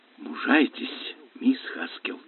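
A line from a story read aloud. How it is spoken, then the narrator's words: Whisper. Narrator (Russian): прошептал Лестер Смит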